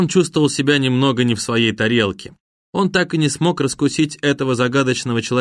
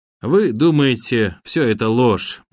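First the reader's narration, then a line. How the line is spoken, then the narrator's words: Sad speech. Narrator (Russian): грустно продолжил Бакор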